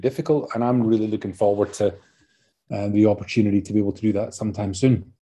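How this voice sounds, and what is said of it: Scottish accent. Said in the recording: “as you can tell from my accent. I'm, from Scotland originally”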